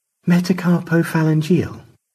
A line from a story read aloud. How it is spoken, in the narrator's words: Stanley sighed